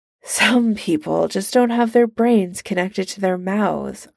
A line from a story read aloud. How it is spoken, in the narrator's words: Iron Man sighs